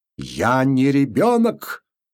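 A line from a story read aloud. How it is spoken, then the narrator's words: Trembling angry shout. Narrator (Russian): закричал он, и губы его задрожали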